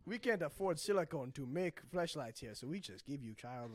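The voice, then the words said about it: Put-on African accent. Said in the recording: “I don't know why I'm doing an African ... Accent”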